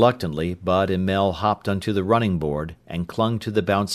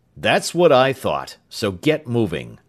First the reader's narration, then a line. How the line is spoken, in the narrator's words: the sergeant barked